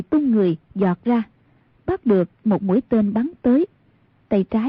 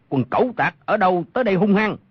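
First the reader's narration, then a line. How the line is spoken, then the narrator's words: Shout from darkness. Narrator (Vietnamese): Trong bóng tối có một người quát lên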